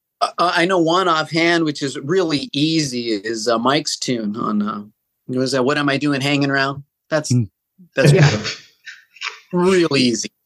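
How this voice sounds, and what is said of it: Sarcastic delivery. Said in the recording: “being sarcastic”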